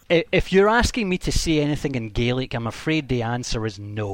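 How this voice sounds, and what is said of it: Scottish accent. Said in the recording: “English with a Scottish accent”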